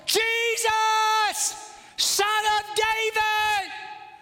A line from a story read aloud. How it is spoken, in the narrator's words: he shouts all the louder